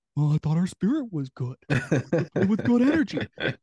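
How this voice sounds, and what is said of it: Imitates another person's voice. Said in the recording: “That's my Jim Boylan impression. It helps I'm a little hoarse”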